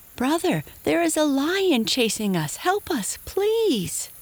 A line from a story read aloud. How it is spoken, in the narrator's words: The two brothers called out